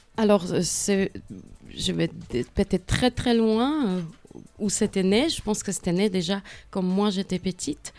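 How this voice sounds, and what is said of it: Czech accent speaking French. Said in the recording (French): “vous entendez mon accent, donc vous avez bien deviné que je ne viens pas d'ici... L'accent va rester.”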